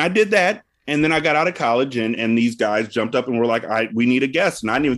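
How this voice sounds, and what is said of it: Usual voice. Nothing is said of it.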